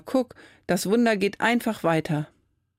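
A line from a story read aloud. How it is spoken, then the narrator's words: Calling out. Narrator (German): ruft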